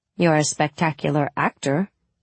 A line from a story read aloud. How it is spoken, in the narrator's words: I said dryly